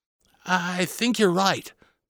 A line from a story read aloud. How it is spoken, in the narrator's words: Bobby said uneasily